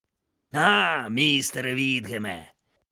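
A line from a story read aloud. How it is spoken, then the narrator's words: Hoarse sailor. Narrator (Ukrainian): прохрипів моряк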